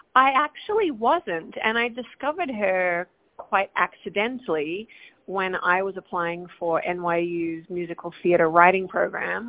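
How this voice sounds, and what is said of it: Australian accent. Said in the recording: “that's a beautiful accent. You have to say where you're from ... I am from Perth, Australia, Western Australia, all the way down under.”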